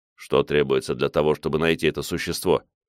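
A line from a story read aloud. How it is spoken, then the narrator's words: Calm male question. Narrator (Russian): спокойно спросил меня мужчина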